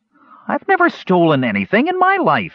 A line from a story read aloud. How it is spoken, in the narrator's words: Earwig cried indignantly